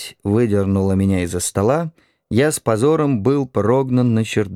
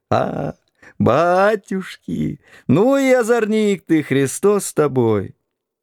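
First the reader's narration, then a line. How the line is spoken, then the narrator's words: Old woman's muffled laughter. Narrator (Russian): бабушка и хохотала, зажимая себе рот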